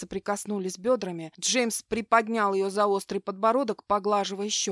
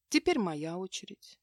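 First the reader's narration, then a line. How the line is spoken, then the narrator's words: Gentle interruption. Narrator (Russian): мягко прервал Джеймс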